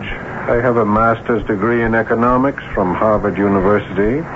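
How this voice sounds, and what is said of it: Unusual non-American accent. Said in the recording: “You don't sound like an American. ... Now that I listen, that's an unusual accent.”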